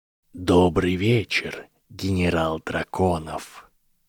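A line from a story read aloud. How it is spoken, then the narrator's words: Cold whisper. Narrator (Russian): произнес Гарри Поттер холодным шепотом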